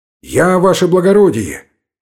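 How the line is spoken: Frightened shout. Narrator (Russian): крикнул Гайнан испуганным голосом

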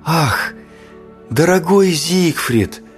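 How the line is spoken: Whispered. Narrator (Russian): прошептала Одетта

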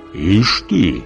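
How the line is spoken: Envious whisper. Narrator (Russian): завистливо шепнул Иван

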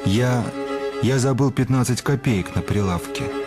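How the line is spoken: Mutter. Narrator (Russian): бормочет аптекарь

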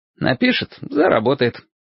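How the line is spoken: Carefree reply. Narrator (Russian): самым беззаботным тоном отозвался Лесь

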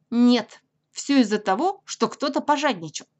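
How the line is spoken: Stern rabbit. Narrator (Russian): строго сказал кролик

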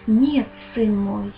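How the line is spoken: Gentle, affectionate. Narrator (Russian): ласково ответил он

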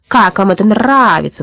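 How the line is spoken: Loud indignant croak. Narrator (Russian): возмущенно каркал он на весь лес

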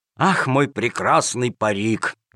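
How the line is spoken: Sad sigh. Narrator (Russian): вздохнул с грустью Джакомон

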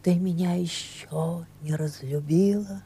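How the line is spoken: Quiet question. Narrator (Russian): тихо спрашивал он

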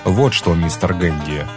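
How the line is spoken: Plain. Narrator (Russian): сказал он

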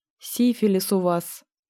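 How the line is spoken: Soft repetition. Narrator (Russian): повторил я мягко

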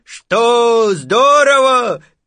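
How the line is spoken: Shouted from high above. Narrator (Russian): крикнул ему из-под небесья Винни-Пух

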